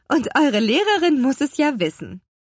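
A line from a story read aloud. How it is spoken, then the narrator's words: Laughing mother. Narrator (German): lachte ihre Mutter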